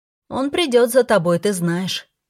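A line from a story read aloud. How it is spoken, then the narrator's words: Shouting. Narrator (Russian): крикнула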